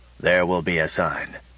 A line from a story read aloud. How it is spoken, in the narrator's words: muttered Bly